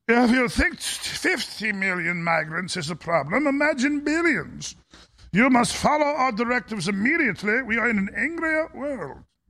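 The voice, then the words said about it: German-accented Klaus Schwab impression. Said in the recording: “I try to do Schwab anymore like a Russian accent. ... I try a German accent anymore like a Doctor Strange level”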